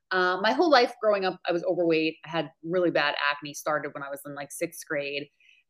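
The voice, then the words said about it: New York accent. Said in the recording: “I'm originally from New York. You'll probably hear the accent come out.”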